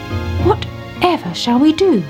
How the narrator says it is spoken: she cried

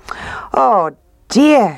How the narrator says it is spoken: she cried

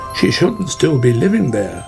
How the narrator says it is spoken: said Otter

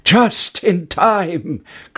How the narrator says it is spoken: cried Jack

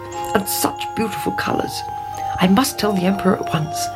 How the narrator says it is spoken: he muttered

